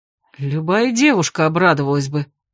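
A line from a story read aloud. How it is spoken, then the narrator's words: Stubborn grumble. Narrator (Russian): упрямо буркнул граф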